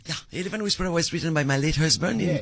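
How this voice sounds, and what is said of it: French accent. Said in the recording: “I am French, yes. You can hear my accent... Your accent is French”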